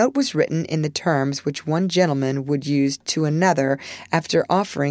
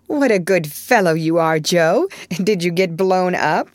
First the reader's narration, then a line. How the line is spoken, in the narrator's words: he added, laughing